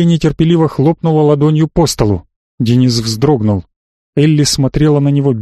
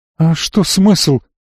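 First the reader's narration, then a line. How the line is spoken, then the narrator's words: Sobbing question. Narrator (Russian): всхлипнув, спросила Марго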